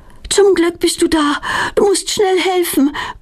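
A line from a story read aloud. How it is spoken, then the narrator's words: Panting. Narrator (German): keucht Petronella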